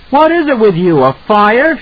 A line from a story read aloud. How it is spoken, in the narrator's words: shouted